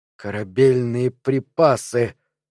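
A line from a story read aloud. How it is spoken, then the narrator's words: Forced out. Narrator (Russian): выдавил он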